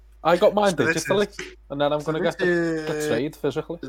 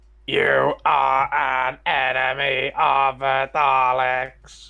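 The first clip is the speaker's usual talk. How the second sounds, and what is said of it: Dalek robotic voice impression. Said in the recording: “Shall we all do a Dalek impression?”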